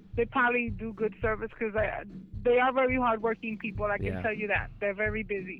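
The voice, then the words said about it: New York accent. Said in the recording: “I come from New York City... Oh, that's what that accent is.”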